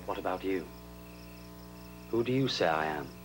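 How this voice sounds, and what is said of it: English accent. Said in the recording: “English accent”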